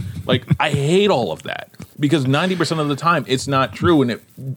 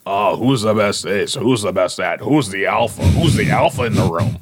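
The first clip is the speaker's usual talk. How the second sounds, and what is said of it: Imitates a typical sports radio jock. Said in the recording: “you do that voice before. That was funny. ... That is my imitating like typical sports jock radio thing. ... You did a good job. I've never heard that voice”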